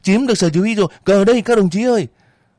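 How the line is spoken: Elated ringing shout. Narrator (Vietnamese): Với một niềm hứng khởi dâng lên tràn đầy, Việt hét vang lên

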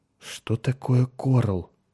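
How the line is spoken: Confused mumble. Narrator (Russian): пробормотал Меррик, окончательно сбитый с толку

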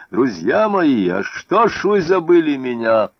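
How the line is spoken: Shouted. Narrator (Russian): Он поднес руку к груди, откуда текла кровь, и крикнул

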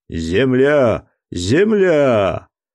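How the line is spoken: Sudden shout. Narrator (Russian): Геркулес, который нес вахту, вдруг закричал

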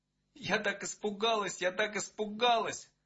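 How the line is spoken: Tearful mumbling. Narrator (Russian): Сквозь слезы бормотала она

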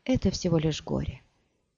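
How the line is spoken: Quiet. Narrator (Russian): тихо сказала

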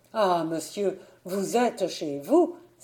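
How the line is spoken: Exclaimed. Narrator (French): s'écria Niklaus

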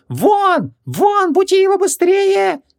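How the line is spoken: Frustrated yelling. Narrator (Russian): завопил он, когда Креол и не подумал просыпаться

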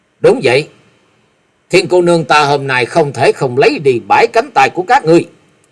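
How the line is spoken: Cold young woman. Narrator (Vietnamese): Hắc Y thiếu nữ lạnh lùng nói

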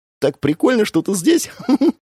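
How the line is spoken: Giggling. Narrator (Russian): Хихикнула она

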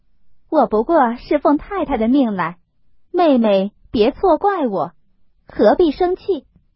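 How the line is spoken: Placating smile. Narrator (Chinese): 凤姐陪笑道

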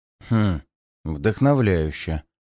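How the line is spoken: Sighing mumble. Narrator (Russian): бормочет Гансов, вздохнув

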